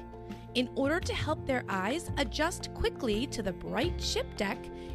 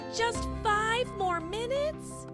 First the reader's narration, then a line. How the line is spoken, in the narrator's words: John pleaded